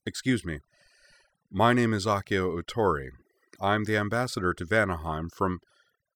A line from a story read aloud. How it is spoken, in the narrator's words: asked in his calmest, smoothest voice